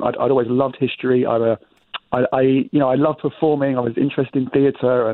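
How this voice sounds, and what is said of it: English accent. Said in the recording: “Your listeners might hear an English accent that I have. ... I'd, actually transferred here from London, England.”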